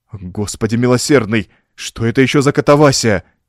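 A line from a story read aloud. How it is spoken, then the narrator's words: Exclaimed. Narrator (Russian): воскликнул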